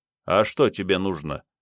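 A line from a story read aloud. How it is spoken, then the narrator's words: Calm question, stranger. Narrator (Russian): спокойно поинтересовался незнакомец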